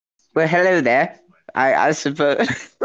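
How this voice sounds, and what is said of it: Put-on British accent. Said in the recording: “British. ... you're just gonna portray him as British like that?”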